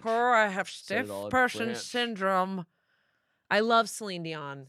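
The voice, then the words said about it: Imitates a singer's voice. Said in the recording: “That's a good Celine Dion impression.”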